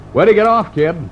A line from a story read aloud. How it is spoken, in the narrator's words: He raised his voice above the roar of the bus and said